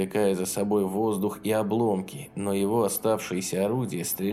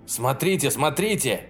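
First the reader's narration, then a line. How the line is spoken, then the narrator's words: Shouted. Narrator (Russian): закричал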